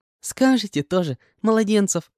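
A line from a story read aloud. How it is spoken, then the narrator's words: Bursting into laughter. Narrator (Russian): расхохоталась она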